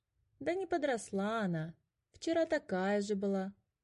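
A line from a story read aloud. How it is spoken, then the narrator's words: Lazy arguing. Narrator (Russian): лениво спорил Котя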